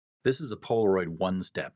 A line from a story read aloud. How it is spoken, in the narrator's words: he said